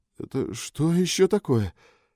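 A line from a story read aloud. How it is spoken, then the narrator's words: Frightened question. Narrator (Russian): испуганно спросил Боджинг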